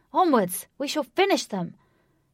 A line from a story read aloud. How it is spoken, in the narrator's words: Wraith cried with venomous spite